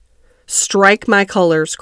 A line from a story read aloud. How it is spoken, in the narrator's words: cried the captain